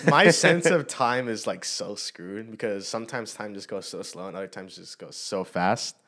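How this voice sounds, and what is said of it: Talking very fast. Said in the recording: “You're talking so fast.”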